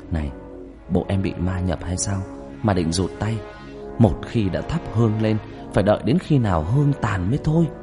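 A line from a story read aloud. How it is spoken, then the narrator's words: Whisper. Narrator (Vietnamese): Thằng Nam thì thầm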